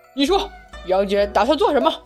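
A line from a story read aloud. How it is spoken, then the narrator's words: Fierce roar. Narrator (Chinese): 雷震子 凶神恶煞的，直接吼道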